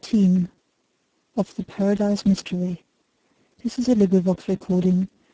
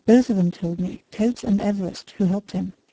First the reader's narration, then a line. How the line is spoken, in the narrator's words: replied Mitchington